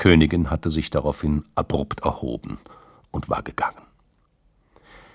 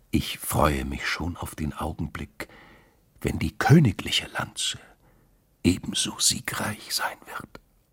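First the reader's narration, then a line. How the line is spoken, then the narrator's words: Whisper in ear. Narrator (German): Brandt beugte sich vor und flüsterte der Königin ins Ohr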